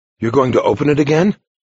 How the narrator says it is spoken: Francis asked eagerly

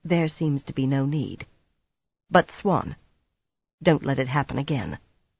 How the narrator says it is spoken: she said at last, quietly

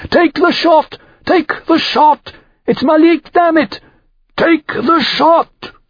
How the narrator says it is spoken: screamed

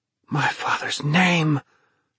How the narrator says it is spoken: Thomas gasped

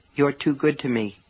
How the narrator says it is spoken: Polly said softly

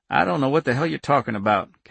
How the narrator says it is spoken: Cap said flatly

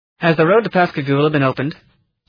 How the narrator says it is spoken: the driver called out

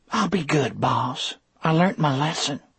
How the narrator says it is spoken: whispered in a humble little voice

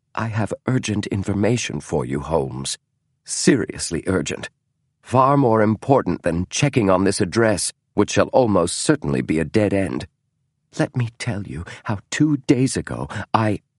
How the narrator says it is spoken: said softly

